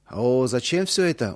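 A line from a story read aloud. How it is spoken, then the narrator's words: Surprised drawl. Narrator (Russian): удивленно протянул Иосиф Дмитриевич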